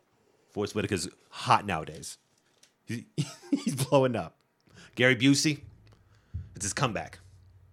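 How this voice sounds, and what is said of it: Imitates another person's voice. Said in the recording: “my Sid Shattuck impersonation.”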